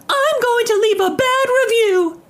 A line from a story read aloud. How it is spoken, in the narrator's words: screamed at our management